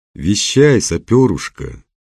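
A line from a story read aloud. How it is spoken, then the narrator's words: Gloomy. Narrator (Russian): мрачно сказал Немоляев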